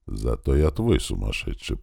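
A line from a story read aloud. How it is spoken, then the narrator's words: Whispered reply. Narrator (Russian): прошептал он в ответ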